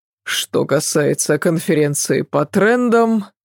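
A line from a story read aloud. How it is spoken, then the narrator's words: Bored voice. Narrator (Russian): скучным голосом произнес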